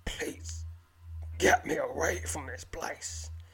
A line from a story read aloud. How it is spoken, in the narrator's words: he croaks